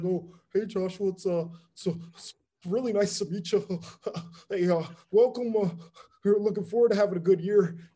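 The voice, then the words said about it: Imitates another person's voice. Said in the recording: “That's that a great impression. So good, yeah.”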